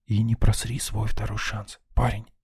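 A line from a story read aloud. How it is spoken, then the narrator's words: Whispered under breath. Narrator (Russian): шепнул себе под нос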